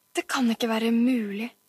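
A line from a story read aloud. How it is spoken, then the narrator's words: Groaning. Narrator (Norwegian): stønnet han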